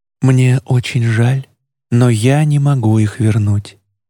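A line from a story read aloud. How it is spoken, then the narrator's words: Soft. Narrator (Russian): мягко сказала она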